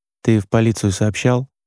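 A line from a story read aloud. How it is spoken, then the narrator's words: Quiet question. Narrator (Russian): негромко спросил Роман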